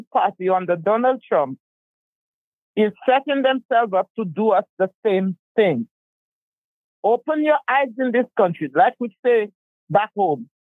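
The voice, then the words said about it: Eastern Caribbean accent. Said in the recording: “my accent is in the um in the um the Eastern Caribbean”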